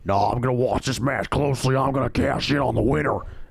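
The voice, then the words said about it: Imitates another person's voice. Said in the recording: “that was a good impersonation.”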